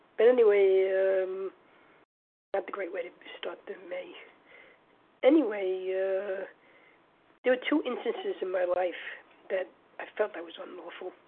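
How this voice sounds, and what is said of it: Sick, off-sounding voice. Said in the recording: “I got COVID, so that's kind of why I sound kind of weird”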